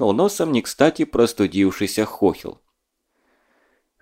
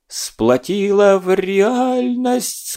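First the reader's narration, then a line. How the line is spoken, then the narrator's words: Whimpering. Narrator (Russian): скулил Петруха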